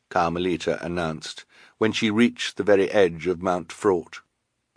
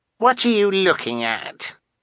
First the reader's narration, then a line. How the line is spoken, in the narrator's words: Carmelita asked scornfully